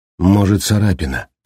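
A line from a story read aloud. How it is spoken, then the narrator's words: Said gloomily. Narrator (Russian): сказала мрачно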